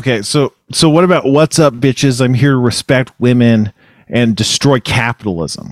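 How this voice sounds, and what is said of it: Sarcastic delivery. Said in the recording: “you were being sarcastic there”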